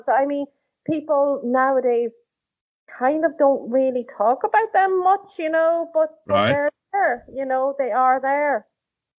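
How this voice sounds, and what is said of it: Noticeable regional accent. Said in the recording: “I love your accent. ... lovely accent.”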